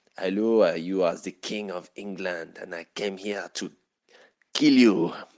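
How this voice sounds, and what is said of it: Deliberately bad French accent. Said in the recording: “his French accent is c'est pas très bien. ... it's a very bad French accent. ... It's not even as good as that.”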